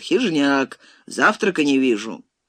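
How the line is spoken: Regretful sigh, then cheerful bossy shout. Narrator (Russian): с сожалением вздохнул Таманцев и начальственным баском, но весело вскричал

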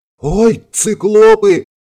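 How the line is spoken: Female wail over channel. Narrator (Russian): взвыл в общем канале женский голос

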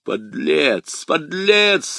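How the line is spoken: Growling. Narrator (Russian): рычала миледи

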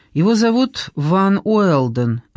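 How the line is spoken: Plain. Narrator (Russian): ответила Клея

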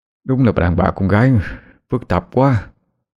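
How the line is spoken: Tongue-out muttering. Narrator (Vietnamese): Hiếu ... thẻ cái lưỡi trà với chiếc điện thoại mà lẩm bẩm

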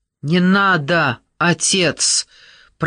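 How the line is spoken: Pained shout. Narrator (Russian): прокричал с болью в голосе Нат

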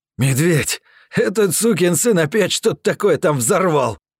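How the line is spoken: Joyful exhale. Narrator (Russian): Обрадованно выдохнул Пейн

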